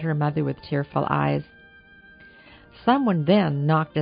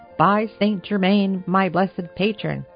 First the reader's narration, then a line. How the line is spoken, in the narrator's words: said he